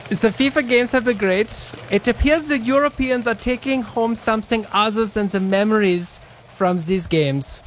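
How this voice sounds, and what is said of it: Put-on German accent. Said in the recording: “read the rest of this, in your German accent ... read it in the accent”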